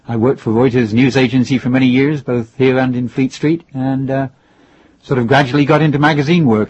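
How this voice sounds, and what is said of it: Faint English accent. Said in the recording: “England, where I originally came from, as you may be able to tell by what's left of the accent.”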